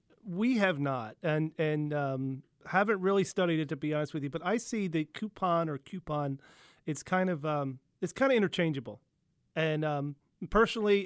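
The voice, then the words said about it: Slight Philadelphia accent. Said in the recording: “I've got a bit of a Philly accent”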